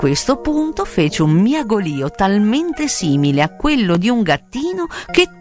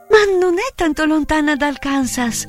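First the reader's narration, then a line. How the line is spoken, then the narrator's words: Exclaimed. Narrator (Italian): esclamò Dorothy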